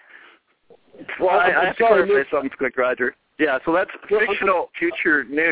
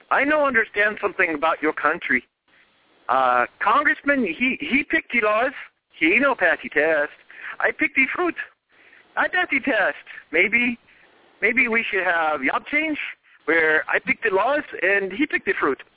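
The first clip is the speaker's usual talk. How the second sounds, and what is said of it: Horrible put-on accent. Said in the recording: “the most horrible, horrible accent I've ever heard”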